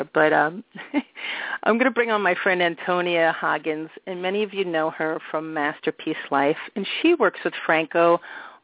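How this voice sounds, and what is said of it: Put-on French accent. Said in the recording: “I'm speaking with a French accent. I don't speak French, so please excuse me, any of you real Frenchies out there.”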